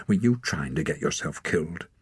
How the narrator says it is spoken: Above the crackle of the fire, he heard Ren muttering angrily

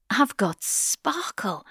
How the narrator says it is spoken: says towards the end, her voice cracking

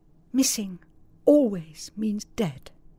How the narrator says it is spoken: saying earnestly to each

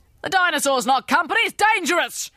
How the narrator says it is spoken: shouted the general

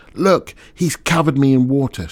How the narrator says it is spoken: shouted

